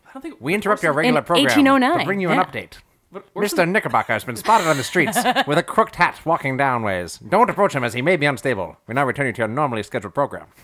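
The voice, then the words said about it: Old-timey 1930s radio announcer voice. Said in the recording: “Finally a use for ... old-timey radio ... announcer ... accent ... Every single time we ask ... to do an accent, he comes up with, "Hey, everybody, I'm on 1930s radio guy." ... His default is old-timey.”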